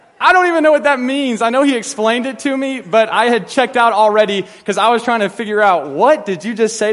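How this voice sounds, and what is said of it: Usual voice. Nothing is said of it.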